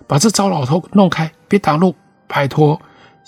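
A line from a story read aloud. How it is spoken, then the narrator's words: Group shouting. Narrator (Chinese): 他们喊着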